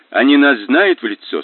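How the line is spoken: Plain. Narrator (Russian): спросил Мазур

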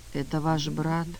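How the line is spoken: Quiet. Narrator (Russian): тихо сказал Сергей Федорович

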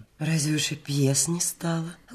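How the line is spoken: Gentle reproach. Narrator (Russian): ласково укоризненно спросила Настасья Ивановна

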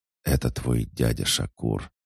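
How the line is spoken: Continued whispering. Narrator (Russian): продолжил шептать Эйнен

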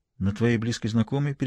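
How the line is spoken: Barely audible question. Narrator (Russian): переспросила она чуть слышно

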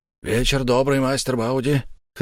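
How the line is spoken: Hoarse. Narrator (Russian): хрипло сказал кто-то

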